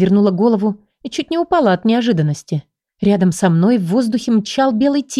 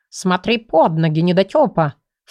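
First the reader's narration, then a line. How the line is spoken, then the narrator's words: Snorting. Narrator (Russian): фыркнул он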